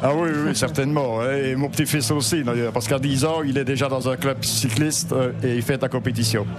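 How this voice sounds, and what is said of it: Slight eastern Belgian French accent. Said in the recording (French): “une petite pointe d'accent ... Vous viendriez de l'est du pays ... province de Liège ... l'accent de Petit Rochin”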